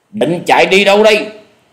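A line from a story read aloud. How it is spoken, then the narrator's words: Menacing shout. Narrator (Vietnamese): tiếng quát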